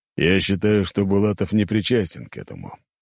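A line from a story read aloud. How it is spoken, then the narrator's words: Old man sighing. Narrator (Russian): вздохнул старик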